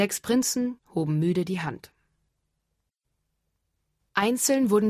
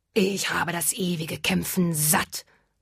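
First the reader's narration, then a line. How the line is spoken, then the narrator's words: Dragon hissing. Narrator (German): fauchte der Drache den ersten Prinzen an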